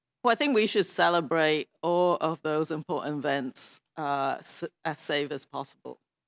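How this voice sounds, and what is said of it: Thick Canadian accent. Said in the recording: “As Canadian as maple syrup, this one. ... such a thick accent”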